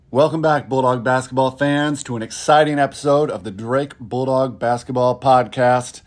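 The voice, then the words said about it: Hoarse voice. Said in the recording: “as you can probably hear from my voice. I'm a little bit hoarse”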